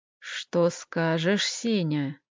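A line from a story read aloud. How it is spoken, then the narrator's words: Quiet, insinuating, menacing question. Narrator (Russian): спросил гость вкрадчивым тихим голосом, от которого у Семена живот крутило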